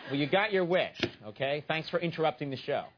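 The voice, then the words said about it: Sarcastic delivery. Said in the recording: “I was being sarcastic.”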